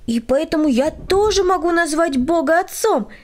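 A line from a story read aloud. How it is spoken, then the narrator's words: Exclamation. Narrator (Russian): воскликнул Владик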